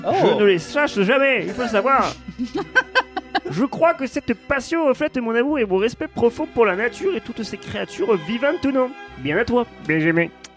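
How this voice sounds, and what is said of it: Put-on southern French accent. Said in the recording (French): “il est sympa avec ce petit accent du sud”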